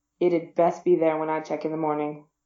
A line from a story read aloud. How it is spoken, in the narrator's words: Over his shoulder he mumbled